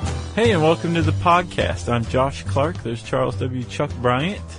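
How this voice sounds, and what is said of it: Usual voice. Nothing is said of it.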